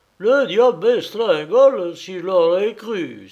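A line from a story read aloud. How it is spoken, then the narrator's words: Exclaimed. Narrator (French): s'écria-t-il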